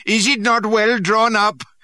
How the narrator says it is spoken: they cackled and made mock of the drill

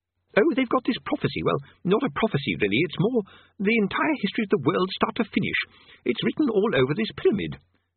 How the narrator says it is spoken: said Dacquerm cheerfully

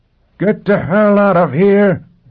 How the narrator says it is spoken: Quat roared

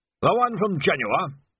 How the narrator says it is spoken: Winder snorted, which was his attempt at a snigger

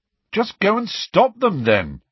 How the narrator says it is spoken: he said irritably

